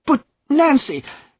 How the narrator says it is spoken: cried Godfrey, bitterly angry with himself

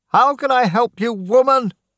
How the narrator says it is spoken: Daniel shouted at Mrs

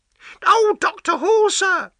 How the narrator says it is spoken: she cried

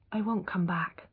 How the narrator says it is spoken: she said quietly

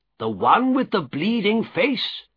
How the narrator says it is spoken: he answered

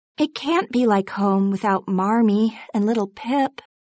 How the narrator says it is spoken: said Beth sadly

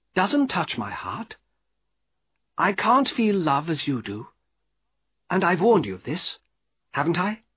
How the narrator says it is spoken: said Estella very calmly

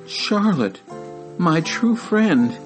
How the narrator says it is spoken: he moaned

